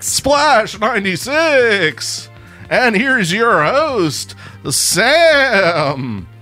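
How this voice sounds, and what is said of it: TV show announcer voice. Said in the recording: “In the Saturday Night Live announcer voice”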